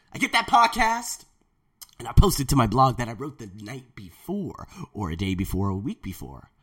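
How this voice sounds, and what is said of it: Rough, strained voice. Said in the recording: “My voice is jacked this morning.”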